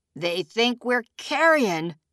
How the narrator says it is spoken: a man said, laughing at his own gallows joke

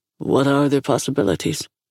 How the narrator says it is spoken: He asked, his voice even

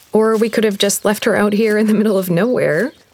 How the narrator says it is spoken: Mary laughed

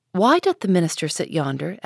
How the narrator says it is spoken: asked Pearl

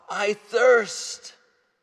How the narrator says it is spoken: cried out

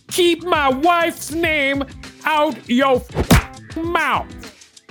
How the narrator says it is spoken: Smith shouted

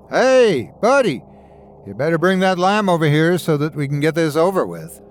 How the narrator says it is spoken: a voice on the other side of the fire called out to me

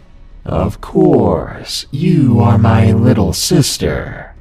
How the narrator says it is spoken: in a really disturbing voice, she replied

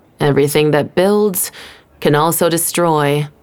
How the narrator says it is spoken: Trey said sullenly

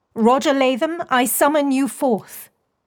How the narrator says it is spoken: Beatrix called, raising her voice

